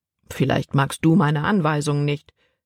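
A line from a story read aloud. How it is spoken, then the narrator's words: Plain. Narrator (German): antwortete Papa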